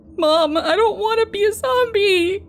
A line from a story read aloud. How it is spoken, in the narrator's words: he cries